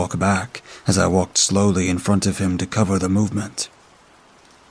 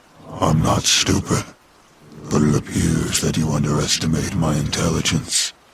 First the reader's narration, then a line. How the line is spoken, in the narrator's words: it said in a deep, gravelly voice